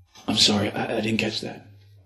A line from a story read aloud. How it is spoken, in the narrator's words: I whispered back